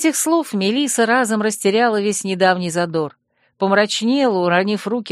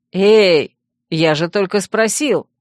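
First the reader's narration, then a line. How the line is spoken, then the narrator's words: Laughing exclamation. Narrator (Russian): Со смехом воскликнул юный маг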